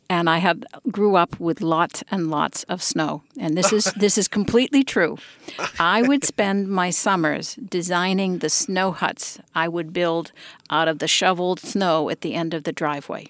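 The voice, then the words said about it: Slight New England, Boston accent. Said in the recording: “I have a slight New England accent, maybe even a Bostonian accent.”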